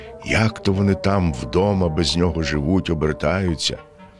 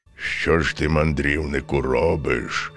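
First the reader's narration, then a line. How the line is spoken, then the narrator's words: Menacing bear voice. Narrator (Ukrainian): промовив ведмідь грізним голосом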